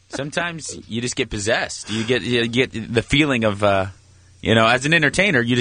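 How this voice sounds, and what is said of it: Usual voice. Nothing is said of it.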